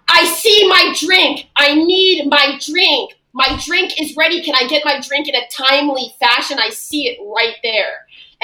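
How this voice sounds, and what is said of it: Screaming, demanding customer voice. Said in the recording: “she's screaming over everybody cleaning up”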